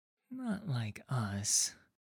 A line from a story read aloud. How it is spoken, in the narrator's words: mutters under his breath